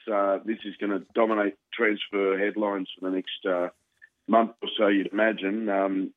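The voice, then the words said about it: Hoarse, failing voice. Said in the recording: “I'm just losing my voice.”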